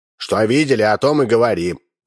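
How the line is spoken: Rude. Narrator (Russian): грубо сказал Удалов

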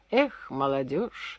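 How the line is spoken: Sad envious sigh. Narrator (Russian): с грустной завистью вздохнул Гоберти

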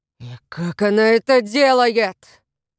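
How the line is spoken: Hissing. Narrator (Russian): прошипел Воллер

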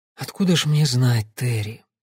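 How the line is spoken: Tired voice. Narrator (Russian): устало проговорила Долорес

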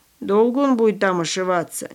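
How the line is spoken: Displeased grumbling. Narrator (Russian): недовольно проворчал он

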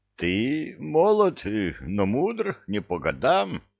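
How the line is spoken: Hoarse stranger's reply. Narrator (Russian): хриплым голосом ответил незнакомец

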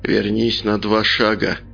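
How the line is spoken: Said through gritted teeth. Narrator (Russian): процедил Николай

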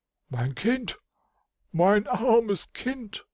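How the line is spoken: Wailing cry. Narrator (German): ein jammervoller Schrei der Königin Rosewitt

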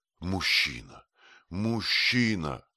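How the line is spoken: Exclaimed. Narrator (Russian): воскликнула она

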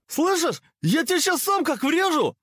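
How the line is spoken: Yell. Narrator (Russian): заорал Кабанов

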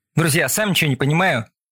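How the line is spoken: Almost cheerful. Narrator (Russian): почти весело сообщил Алекс

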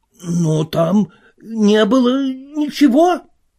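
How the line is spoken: Nearly shrieking. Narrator (Russian): сказал Касс, чуть не взвизгнув

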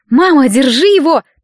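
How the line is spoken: Hurried shout. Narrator (Russian): только успела крикнуть

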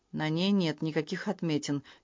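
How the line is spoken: Quiet. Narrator (Russian): тихо сказала она

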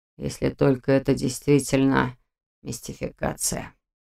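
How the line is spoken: Doubtful mutter. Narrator (Russian): пробормотал Нев с сомнением

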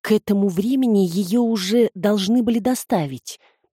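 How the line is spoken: Mumbling. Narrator (Russian): промямлил он

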